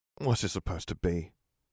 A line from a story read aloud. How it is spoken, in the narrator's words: Ron said quietly but angrily